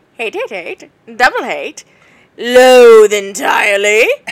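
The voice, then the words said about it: Grinch character voice. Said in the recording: “your Grinch impression”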